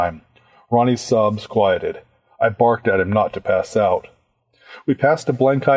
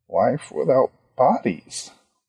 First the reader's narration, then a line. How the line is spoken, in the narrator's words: Ronnie muttered